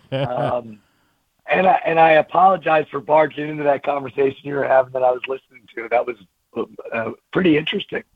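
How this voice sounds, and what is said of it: Hoarse, gravelly voice. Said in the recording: “apologize for my voice right out of the gate. I got a Louis Armstrong thing going today.”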